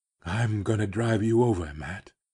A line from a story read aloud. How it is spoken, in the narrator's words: he whispered